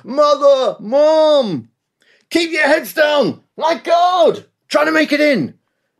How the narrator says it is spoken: He was still screaming

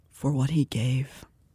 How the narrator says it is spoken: Tarquin said quietly

